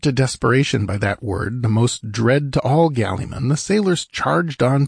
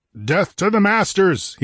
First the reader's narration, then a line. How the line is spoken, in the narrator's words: he thundered